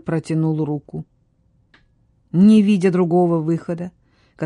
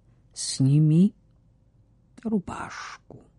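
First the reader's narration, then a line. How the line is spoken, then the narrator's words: Quiet. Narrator (Russian): тихо проговорил Джеймс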